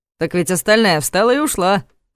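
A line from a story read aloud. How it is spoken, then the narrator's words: Snort. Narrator (Russian): хмыкнул Ваня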